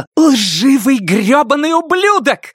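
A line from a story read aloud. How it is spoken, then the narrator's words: Scream. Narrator (Russian): закричала Шарлотта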